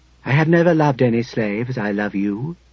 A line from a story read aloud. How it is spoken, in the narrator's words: he said calmly